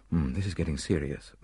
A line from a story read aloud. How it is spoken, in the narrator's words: muttered the doctor